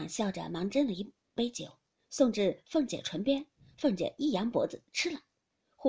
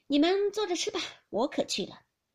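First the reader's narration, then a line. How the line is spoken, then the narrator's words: Laughing. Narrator (Chinese): 笑道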